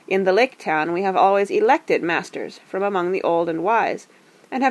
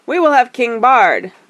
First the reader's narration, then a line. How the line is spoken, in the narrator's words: the people near at hand shouted in reply